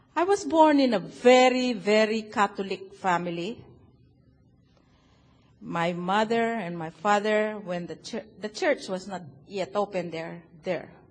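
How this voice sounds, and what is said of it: Filipino-accented English. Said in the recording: “I'm a Filipino ... my accent is so wonderful. Can you hear it?”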